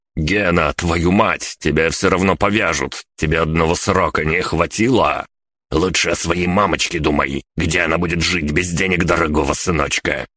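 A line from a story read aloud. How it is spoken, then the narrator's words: Growling. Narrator (Russian): прорычал Кузнецов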